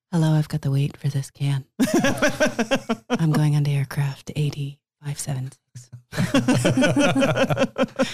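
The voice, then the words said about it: NPR radio announcer voice. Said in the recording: “you sound a little bit like NPR right now ... Bust out the best NPR voice.”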